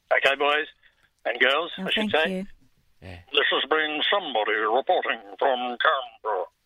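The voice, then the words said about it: Impression of reporter Peter Harvey. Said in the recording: “your impression ... Peter Harvey”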